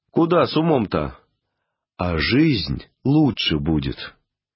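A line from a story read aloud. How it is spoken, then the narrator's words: Displeased tone. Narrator (Russian): Я таким недовольным тоном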